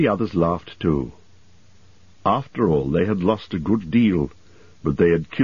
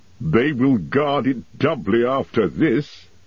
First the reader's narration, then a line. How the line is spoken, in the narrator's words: he laughed